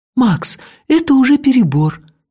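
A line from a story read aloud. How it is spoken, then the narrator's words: Frightened. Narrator (Russian): испуганно сказала Техи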